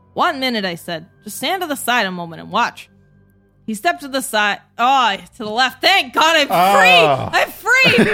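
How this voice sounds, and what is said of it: Character read in Larry David-style voice. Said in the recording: “I fucked with the accent a few times ... Larry David version of Carnacki that I've got going on here”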